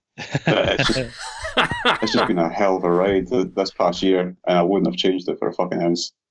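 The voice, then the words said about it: Mumbling, awkward-sounding regional accent. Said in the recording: “my muttering awkward accent ... I'm extremely jealous of your accent ... It's the best damn accent ... your accent's awesome”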